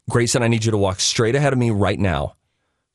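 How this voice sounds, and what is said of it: Firm, stern parental voice. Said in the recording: “sometimes you have to use firm dad voice ... Firm dad voice.”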